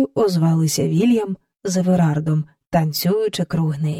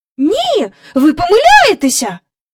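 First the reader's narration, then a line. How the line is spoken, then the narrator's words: Despairing cry. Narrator (Ukrainian): розпачливо скрикнула Джейн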